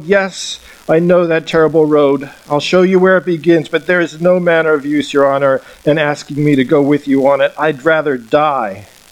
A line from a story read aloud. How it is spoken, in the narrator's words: Cried Golg